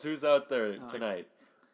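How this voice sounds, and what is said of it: Imitates a stand-up comedian's voice. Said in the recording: “is that a good impression of a stand-up comedian? ... That was my Jerry Seinfeld.”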